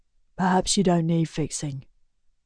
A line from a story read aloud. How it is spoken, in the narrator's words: Griffin says quietly